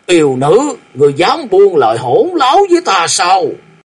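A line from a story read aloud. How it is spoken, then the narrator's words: Angry roar. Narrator (Vietnamese): Riêng đại sư tức giận gầm lên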